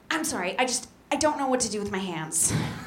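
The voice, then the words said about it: Socially anxious surgeon character voice. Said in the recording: “my impression of a socially anxious surgeon”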